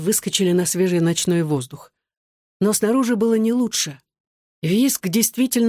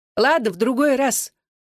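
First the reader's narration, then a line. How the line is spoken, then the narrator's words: Calling after someone. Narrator (Russian): вслед им крикнула Сайка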